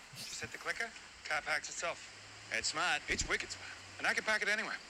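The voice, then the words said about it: Exaggerated Boston accent. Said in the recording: “good Boston accent stuff”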